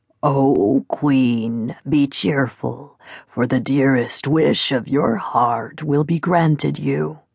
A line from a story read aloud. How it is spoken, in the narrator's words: a croaking voice that said